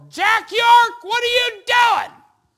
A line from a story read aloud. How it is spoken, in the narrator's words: Brother Goldman had his window down, as he went by, he yelled